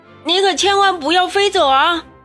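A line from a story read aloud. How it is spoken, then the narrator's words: Shouting. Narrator (Chinese): 他喊道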